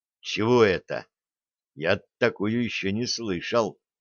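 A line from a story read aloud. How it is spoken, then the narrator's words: Quiet question. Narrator (Russian): негромко спросил Дымов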